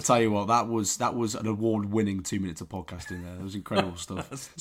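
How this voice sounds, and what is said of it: Croaky, hoarse voice. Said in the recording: “I'm still croaky.”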